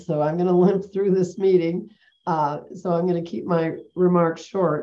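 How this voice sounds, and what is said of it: Congested voice from a cold. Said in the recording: “I have a bad cold,”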